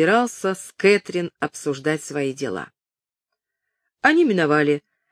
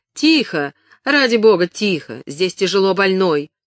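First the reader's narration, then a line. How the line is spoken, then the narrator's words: Small cry. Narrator (Russian): Филиппа слегка вскрикнула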